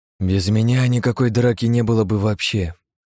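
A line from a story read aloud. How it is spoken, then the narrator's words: Sigh. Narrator (Russian): вздохнул я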